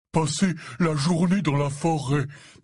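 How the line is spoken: Breathless. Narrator (French): dit-il d'une voix haletante

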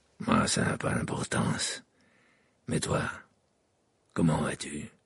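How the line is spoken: Grave. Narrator (French): répondit Sirius d'un ton grave

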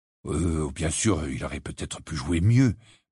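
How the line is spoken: Mumbling. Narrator (French): marmonna-t-il

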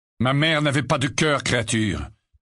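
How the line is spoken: Curt reply. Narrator (French): répondit sèchement Sirius

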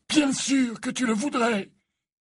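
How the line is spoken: Crying out. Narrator (French): s'écria Dumbledore

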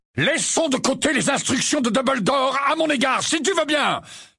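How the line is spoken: Exclamation. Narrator (French): s'écria-t-il

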